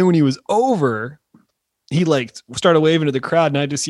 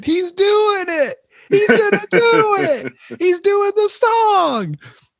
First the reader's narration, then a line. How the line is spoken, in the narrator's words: I just start screaming